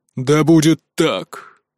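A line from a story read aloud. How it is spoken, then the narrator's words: Thundering. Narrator (Russian): прогремел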